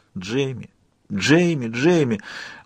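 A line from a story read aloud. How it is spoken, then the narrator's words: Cracked, hoarse, desperate calling. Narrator (Russian): Мой голос звучал надтреснуто и хрипло, но я не могла остановиться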